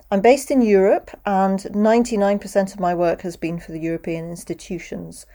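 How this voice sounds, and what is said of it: British accent close to RP. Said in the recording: “as you can probably hear, I'm British. I speak with a British accent. ... speaks British English with a pronunciation that is reasonably close to what's called RP, or received pronunciation”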